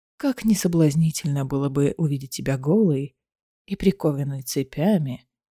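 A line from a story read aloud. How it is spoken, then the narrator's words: Soft laugh. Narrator (Russian): Дорин негромко рассмеялся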